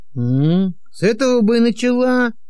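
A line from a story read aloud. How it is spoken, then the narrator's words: Grumbling. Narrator (Russian): пробурчал Григорий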